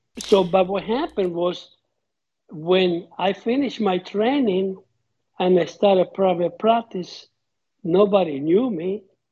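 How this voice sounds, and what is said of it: Speaker's own foreign accent. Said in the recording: “in spite of my accent”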